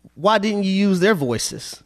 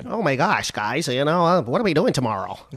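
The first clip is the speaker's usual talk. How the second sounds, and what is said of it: Imitates another person's voice. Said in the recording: “give everybody the world's best impersonation of me”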